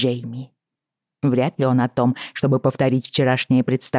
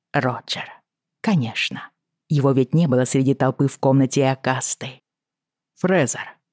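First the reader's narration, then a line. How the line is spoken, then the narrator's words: Quiet reply. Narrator (Russian): ответил Джейми негромко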